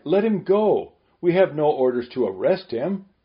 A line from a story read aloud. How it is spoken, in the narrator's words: The others cried